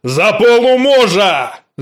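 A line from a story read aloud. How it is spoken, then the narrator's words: Shout. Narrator (Russian): закричал он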